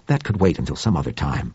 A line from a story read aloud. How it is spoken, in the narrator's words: said Webster impatiently